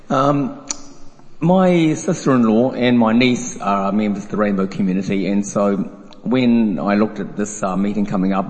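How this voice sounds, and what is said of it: Croaky, hoarse voice. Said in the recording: “I'm losing my voice, so a bit croaky here.”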